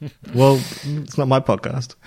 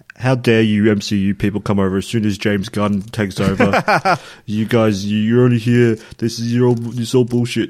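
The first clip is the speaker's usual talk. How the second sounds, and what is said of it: Impression of an internet troll. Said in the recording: “Here's my impression of what's going to happen... I'm one of the trolls on the internet.”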